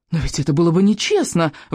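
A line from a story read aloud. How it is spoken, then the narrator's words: Indignant peasant exclaiming. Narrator (Russian): воскликнул Элвин, бедный, но честный крестьянин, с видом оскорбленной невинности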